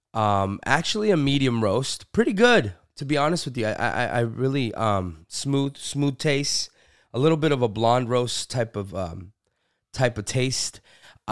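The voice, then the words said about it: Sick, under-the-weather voice. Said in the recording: “I am currently under the weather. So if you hear it in my voice”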